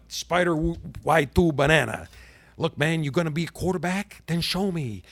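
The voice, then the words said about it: Jon Gruden impression. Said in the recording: “I don't do the best Jon Gruden impression. I mean, Caliendo is the king”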